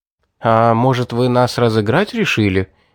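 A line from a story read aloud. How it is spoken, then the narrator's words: Uncertain, smiling. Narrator (Russian): неуверенно улыбнулся Улис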